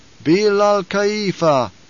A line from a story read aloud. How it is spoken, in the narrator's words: intoned the troop